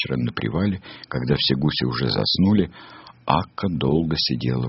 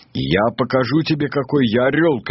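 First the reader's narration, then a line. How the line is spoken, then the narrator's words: Shouting. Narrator (Russian): кричал он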